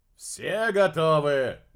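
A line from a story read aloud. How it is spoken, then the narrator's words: Loud question. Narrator (Russian): громко поинтересовался Дерек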